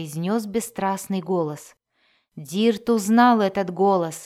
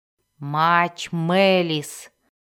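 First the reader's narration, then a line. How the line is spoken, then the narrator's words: Growled. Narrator (Russian): прорычала она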